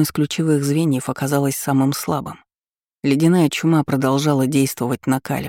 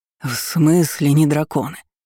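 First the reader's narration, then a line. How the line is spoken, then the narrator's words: Hoarse wheeze. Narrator (Russian): хрипел Архимаг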